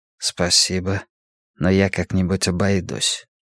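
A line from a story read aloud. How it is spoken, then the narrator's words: Quiet. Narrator (Russian): тихо сказал Рачан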